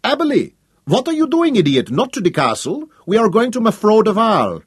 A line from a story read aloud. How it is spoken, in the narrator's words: a shadow of annoyance crossed her face, and she called sharply